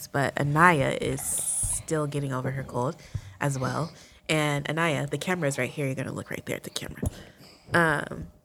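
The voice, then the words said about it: Congested, stuffy-nosed voice. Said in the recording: “We are all sick. I don't know if you guys can hear the congestion in my voice”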